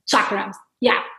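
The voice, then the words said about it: Italian accent. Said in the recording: “You've got a beautiful Italian accent. ... You're from Italy.”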